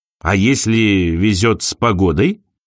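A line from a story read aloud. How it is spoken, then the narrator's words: Plain. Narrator (Russian): спросил Винс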